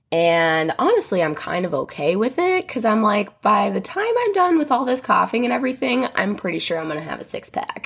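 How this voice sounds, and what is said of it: Raspy, slightly hoarse voice. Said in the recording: “excuse my voice. I know it's probably a little raspy or just a little weird sounding ... I did have COVID last week”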